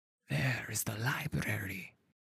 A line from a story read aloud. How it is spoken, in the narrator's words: he whispered